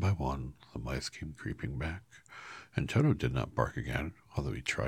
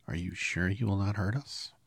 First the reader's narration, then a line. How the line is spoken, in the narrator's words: the queen of the mice asked in a timid voice